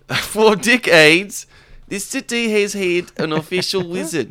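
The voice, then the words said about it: Put-on South African-sounding accent. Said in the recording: “That was more South African.”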